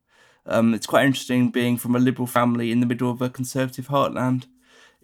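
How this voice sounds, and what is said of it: Neutral English accent, quick speech. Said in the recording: “he was always quite well-spoken ... I speak naturally quite quickly when I'm speaking ... It's quite a neutral accent”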